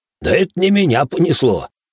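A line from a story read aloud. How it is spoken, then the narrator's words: Chuckling. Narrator (Russian): хохотнул Иоши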